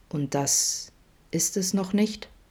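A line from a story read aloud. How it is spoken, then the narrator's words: Quiet follow-up question. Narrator (German): fragte Adam leise nach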